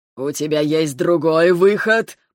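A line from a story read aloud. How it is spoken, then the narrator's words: Furious growl. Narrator (Russian): прорычал Ревел, окончательно впадая в бешенство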